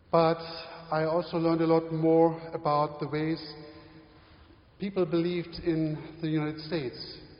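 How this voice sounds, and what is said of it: German accent in English. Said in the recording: “my German accent, and it sounded quite funny to them”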